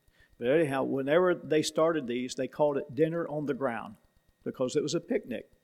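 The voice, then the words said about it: Tennessee accent. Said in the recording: “Tennessee, where I'm from, in case you hadn't noticed the accent”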